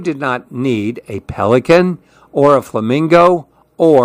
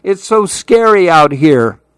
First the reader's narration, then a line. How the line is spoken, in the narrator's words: cried Lou